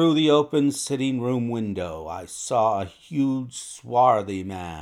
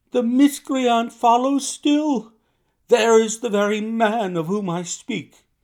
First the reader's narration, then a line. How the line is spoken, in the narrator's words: she cried